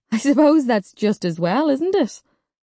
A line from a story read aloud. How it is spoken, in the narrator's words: Sharon laughed and said to me